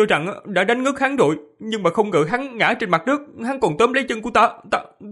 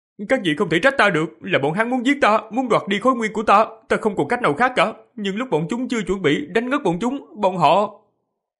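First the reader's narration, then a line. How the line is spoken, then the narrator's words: Feigned frightened boyish stammer. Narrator (Vietnamese): Diệp Phàm giả bộ sợ hãi, giả dạng thân sắc của thiếu niên 11-12 tuổi, lắp bắp nói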